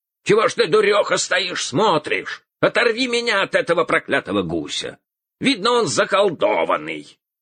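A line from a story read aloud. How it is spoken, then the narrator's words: Shouting. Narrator (Russian): Закричал он своей жене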